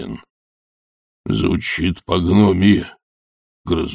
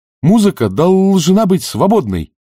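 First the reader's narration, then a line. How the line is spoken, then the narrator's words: Exclaimed. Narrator (Russian): воскликнул Фейри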